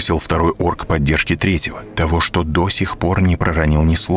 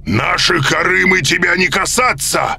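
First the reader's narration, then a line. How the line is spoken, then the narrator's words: Orc shouting. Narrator (Russian): закричал орк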